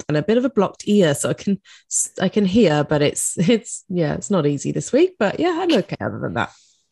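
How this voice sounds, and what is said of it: Congested, snotty-sounding voice. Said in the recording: “You sound a bit snotty this morning. ... I have a bit of a cold”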